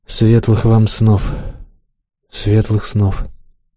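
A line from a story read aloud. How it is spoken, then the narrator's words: Quiet agreement. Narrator (Russian): согласился с ним Гарольд, негромко произнес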